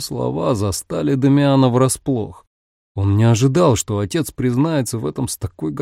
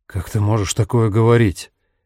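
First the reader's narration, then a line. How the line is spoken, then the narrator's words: Sighing. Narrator (Russian): Батиста вздохнул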